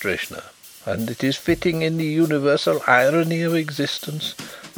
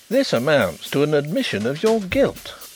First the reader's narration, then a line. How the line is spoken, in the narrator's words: exclaimed Mr